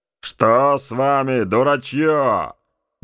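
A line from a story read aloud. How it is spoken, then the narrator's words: Gruff, rude. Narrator (Russian): грубо сказал он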